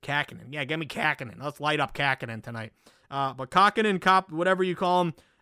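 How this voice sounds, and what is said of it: Put-on Boston accent. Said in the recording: “See, that's my Boston accent.”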